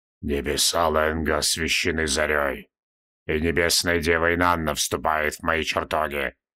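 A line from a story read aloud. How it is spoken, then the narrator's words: Muffled, hollow voice. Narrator (Russian): глухо произнес Нергал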